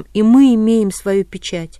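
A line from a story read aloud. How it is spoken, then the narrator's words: Sudden scream, male voice. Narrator (Russian): вдруг закричала мужским голосом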